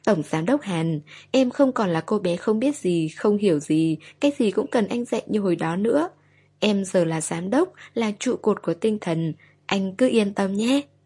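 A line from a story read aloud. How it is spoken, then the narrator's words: Smiling, after a stunned pause. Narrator (Vietnamese): Kỳ Tinh nghe anh nói một tràng dài, cô ngây người nhìn anh giây lát, rồi bỗng cô mỉm cười, cô nói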